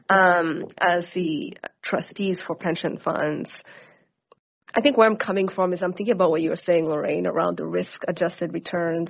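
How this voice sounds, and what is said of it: Congested, hard-to-hear voice. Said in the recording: “can you not hear me? Sorry, I have a cold.”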